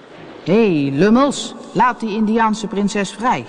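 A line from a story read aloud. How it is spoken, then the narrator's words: Imitated captain's voice. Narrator (Dutch): kon heel goed stemmen nadoen en hij riep met de stem van kapitein Haak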